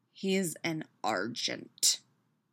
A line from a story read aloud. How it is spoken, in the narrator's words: Peter growls